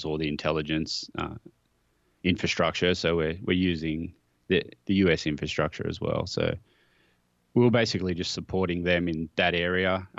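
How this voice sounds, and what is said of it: Australian accent. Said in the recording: “That Australian accent got me.”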